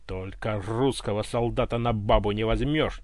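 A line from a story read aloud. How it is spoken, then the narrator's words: Nearly loud bark. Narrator (Russian): чуть не рявкнул он во всю глотку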